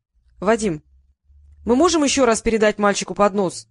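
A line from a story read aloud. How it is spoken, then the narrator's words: Shouted from crowd. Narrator (Russian): закричали из толпы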